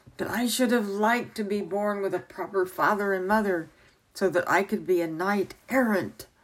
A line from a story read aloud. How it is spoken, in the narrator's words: cried